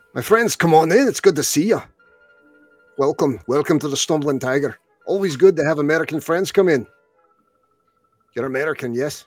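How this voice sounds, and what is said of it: Thick Scottish accent. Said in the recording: “he has a very thick Scottish accent.”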